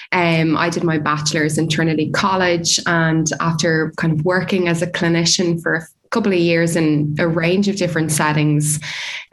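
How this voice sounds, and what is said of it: Irish Dublin accent. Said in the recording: “I'm originally from Dublin in Ireland, as you can probably tell from my accent.”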